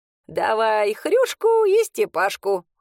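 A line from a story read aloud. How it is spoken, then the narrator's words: Chuckling. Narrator (Russian): хохотнула Матрена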